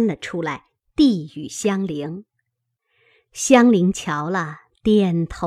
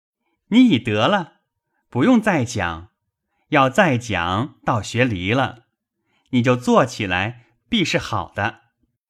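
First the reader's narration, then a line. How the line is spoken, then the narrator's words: Loud laughter. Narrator (Chinese): 宝玉大笑道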